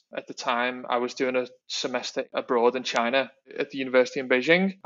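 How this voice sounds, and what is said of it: Strong Liverpool English accent. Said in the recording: “You're obviously from the UK. You said you was from Liverpool ... a very strong accent”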